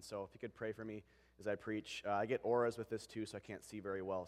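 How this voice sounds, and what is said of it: Voice affected, recovering from cold. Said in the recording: “forgive my voice today. I'm getting over a little bit of a cold”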